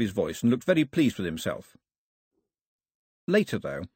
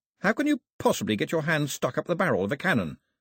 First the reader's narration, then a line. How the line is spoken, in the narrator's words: said Mao